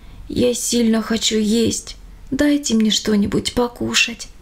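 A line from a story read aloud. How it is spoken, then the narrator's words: Quiet old man's plea. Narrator (Russian): тихо попросил дедушка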